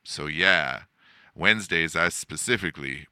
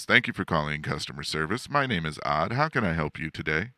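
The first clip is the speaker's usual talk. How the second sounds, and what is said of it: Customer service phone voice. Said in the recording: “customer service voice”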